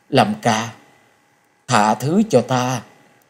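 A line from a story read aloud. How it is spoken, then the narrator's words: Hoarse. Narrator (Vietnamese): nàng giọng khàn khàn nói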